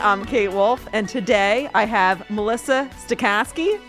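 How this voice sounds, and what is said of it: Put-on Midwestern accent. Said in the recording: “you did a Midwestern accent, too ... It was like really perfect.”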